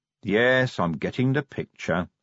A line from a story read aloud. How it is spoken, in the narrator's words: said Vimes wearily